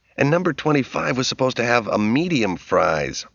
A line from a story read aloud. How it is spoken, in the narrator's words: Roger said irritably